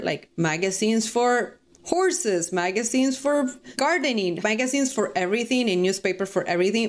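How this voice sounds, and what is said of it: Latina Spanish-accented English. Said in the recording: “just as a Latina, I never really consider my accent being an issue ... how people might hear my accent”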